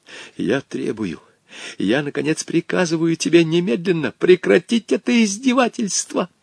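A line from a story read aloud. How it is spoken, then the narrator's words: Hissed. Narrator (Russian): прошипел он Хоттабычу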